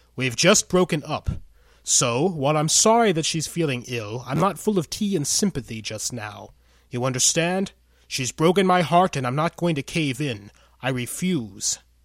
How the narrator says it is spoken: say loudly enough for those nearby to eavesdrop

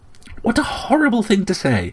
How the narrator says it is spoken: I cried, appalled

